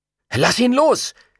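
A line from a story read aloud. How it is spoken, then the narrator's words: Boy calling out. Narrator (German): rief nun auch der Junge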